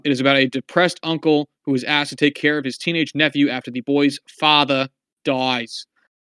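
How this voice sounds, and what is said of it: Bad put-on Boston accent. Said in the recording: “Boston, your Boston accent is fucking atrocious. ... all Boston accents are atrocious”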